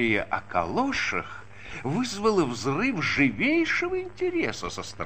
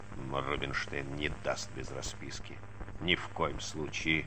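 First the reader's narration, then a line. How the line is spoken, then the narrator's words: Grumbling. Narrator (Russian): забурчал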